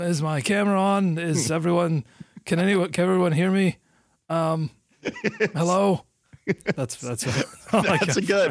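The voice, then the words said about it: Imitates another person's voice. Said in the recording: “an imitation of Mitch Kupchak trying to make Zoom work ... That imitation comes from my love for him”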